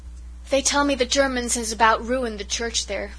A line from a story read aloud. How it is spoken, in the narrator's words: sighed Cousin Sophia